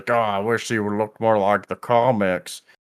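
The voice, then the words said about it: Imitates another person's voice. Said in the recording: “That's my impression of Devin.”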